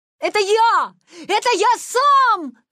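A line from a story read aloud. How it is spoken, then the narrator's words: Joyful shout. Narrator (Russian): радостно закричал Витя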